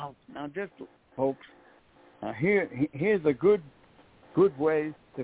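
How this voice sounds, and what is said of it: Usual voice. Nothing is said of it.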